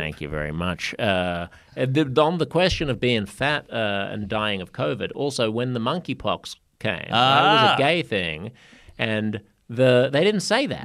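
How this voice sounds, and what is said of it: Foreign-sounding accent. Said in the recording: “listen to this accent. It sounds so exotic in New York City”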